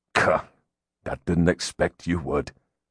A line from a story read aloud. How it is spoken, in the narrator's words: he muttered